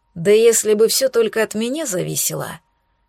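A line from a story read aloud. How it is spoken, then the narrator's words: Grumbled. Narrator (Russian): пробурчал я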